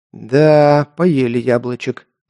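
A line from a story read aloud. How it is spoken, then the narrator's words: Sigh. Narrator (Russian): вздохнул Альф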